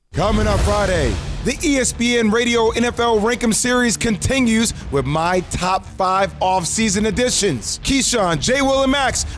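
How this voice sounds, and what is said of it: Yelling, loud announcer delivery. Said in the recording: “I don't know why I'm yelling.”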